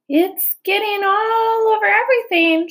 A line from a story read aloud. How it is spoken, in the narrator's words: shouted Fern